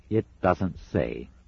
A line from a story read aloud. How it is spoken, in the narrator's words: said Newt